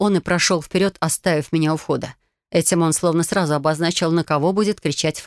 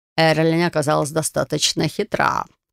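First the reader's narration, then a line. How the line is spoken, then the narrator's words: Snort. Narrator (Russian): хмыкнул он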